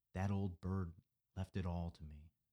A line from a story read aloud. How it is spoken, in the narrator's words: whispered